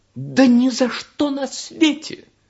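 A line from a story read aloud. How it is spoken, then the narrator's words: Rocket exclaiming. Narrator (Russian): воскликнула ракета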